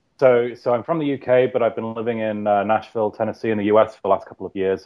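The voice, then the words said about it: Transatlantic British-American accent. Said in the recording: “it's kind of transatlantic ... So I'm somewhere in between”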